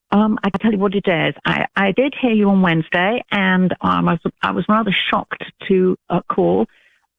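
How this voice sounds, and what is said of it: British accent. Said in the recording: “you don't sound like you're from Alabama ... She's British ... a British accent ... I love her accent ... I love a English accent”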